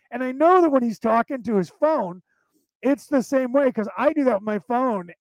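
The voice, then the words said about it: Fast speech, Southern drawl, Eastern dialect. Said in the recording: “I speak too fast ... this American accent that I have, which is a Southern drawl with an Eastern dialect”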